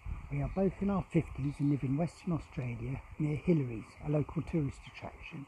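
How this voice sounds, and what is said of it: English accent. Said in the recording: “tell from my voice and accent that I'm not originally from Australia ... coming from England originally”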